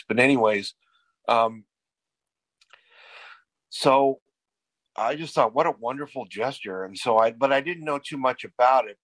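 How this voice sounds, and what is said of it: Strained, hoarse voice. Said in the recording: “my voice is kind of jacked up tonight ... I'm losing my voice.”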